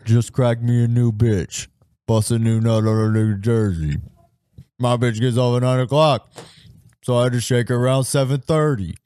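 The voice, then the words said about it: Imitates another person's rapping voice. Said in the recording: “a poor, not a very good impression, but I can hear what you're doing ... it's not terrible”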